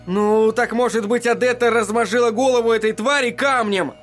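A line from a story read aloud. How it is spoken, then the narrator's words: Shouted. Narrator (Russian): закричал Эдди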